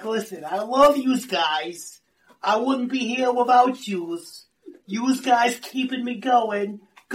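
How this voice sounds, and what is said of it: Imitated strong New Jersey accent. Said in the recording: “She's got a wicked Jersey accent.”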